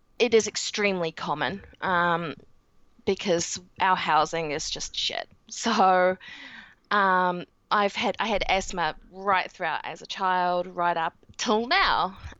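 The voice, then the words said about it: New Zealand English accent. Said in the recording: “in New Zealand, as you can tell with my accent”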